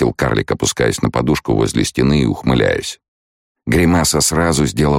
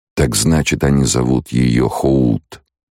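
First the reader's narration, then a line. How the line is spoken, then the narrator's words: Drawling. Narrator (Russian): протянул Кхола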